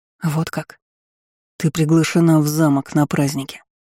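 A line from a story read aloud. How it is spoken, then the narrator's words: Hoarse. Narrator (Russian): хрипло проговорил он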